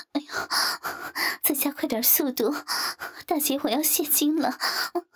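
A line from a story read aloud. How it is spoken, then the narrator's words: Breathless panting. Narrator (Chinese): 王翠花被王五操得气喘吁吁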